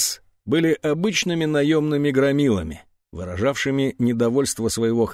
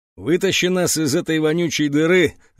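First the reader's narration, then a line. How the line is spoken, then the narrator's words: Angry growl. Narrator (Russian): зарычал Вон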